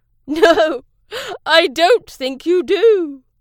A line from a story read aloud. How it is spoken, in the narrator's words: chuckled